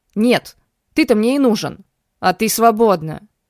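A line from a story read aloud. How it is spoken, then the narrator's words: Angry growl. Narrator (Russian): Рыкнул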